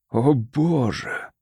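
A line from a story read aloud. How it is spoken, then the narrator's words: Forced out. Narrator (Russian): выдавил Дон Мартин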